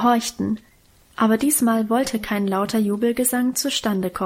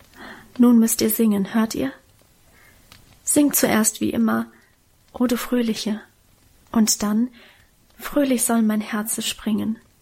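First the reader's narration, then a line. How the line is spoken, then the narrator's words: Whispered. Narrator (German): flüsterte sie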